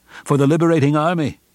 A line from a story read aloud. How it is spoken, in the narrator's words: cried